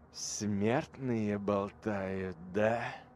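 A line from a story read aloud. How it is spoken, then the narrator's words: Drawl. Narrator (Russian): протянул Тиль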